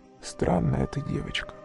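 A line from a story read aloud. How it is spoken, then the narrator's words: Pensive sad whisper. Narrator (Russian): задумчиво прошептал печальный незнакомец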